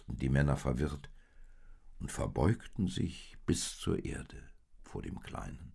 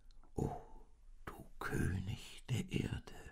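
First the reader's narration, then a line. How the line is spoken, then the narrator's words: Whispered. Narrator (German): flüsterte der Mann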